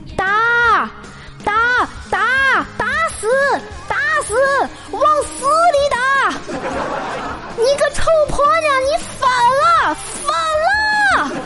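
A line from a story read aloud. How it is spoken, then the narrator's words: Man screaming frantically. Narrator (Chinese): 楼下有个男人撕心裂肺的大喊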